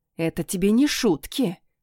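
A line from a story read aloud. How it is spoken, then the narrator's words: Hiss. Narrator (Russian): прошипела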